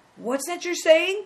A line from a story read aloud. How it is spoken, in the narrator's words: cried